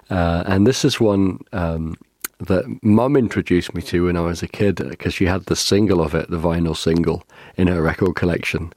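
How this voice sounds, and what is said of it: Slightly croaky, off voice. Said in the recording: “you might be able to tell by my voice that it's a little off this week. I've got had a bit of a virus, cold and cough stuff going on ... slightly croaky”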